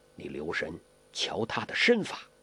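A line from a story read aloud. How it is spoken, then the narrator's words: Low voice. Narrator (Chinese): 洪七公低声地说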